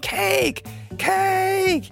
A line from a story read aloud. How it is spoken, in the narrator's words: screaming